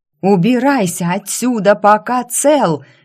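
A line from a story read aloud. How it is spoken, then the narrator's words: Wild unnatural screaming. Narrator (Russian): не своими голосами завопили мы с Кроу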